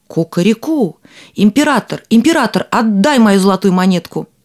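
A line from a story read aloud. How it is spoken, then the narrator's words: Shouting. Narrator (Russian): закричал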